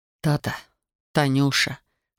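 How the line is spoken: Hoarse mumbling. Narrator (Russian): хрипло бормотал

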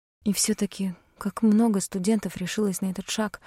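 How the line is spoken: Quiet. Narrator (Russian): тихо сказала я

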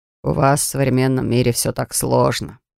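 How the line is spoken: Grumbling. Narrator (Russian): проворчал

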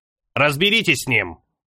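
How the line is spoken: Sharp, curt. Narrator (Russian): Резко бросил Ида

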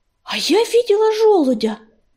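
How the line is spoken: Exclaiming. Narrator (Russian): воскликнула ласточка

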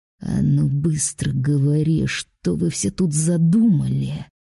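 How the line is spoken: Growl. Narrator (Russian): прорычал Рэмсботом

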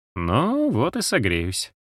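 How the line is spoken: Gloomy thought. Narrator (Russian): мрачно подумал Джоук

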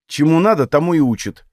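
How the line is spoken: Irritated. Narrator (Russian): произнесла раздраженно

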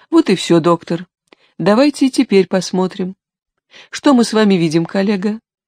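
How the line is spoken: Gentle question. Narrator (Russian): Ласково вопросила она

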